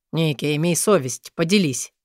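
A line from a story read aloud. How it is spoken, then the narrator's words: Exasperated grumble. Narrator (Russian): Амор не выдержал и проворчал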